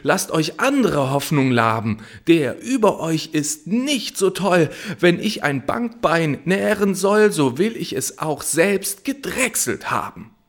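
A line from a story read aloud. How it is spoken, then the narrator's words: Shouted. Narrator (German): schrie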